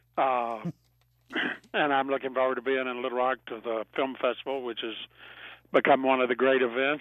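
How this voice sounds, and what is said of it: Slightly raspy voice. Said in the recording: “A little raspy voice ... You may have a raspy voice”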